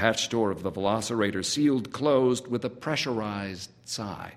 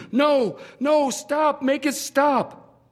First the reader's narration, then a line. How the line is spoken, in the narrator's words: DJ began to scream